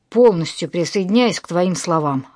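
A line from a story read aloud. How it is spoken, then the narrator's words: Amused snort. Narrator (Russian): хмыкнул Костян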